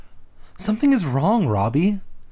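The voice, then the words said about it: Put-on girl voice. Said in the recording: “That's my girl voice.”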